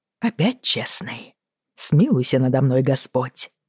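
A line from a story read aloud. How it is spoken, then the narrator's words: Grumbling. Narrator (Russian): буркнул Грей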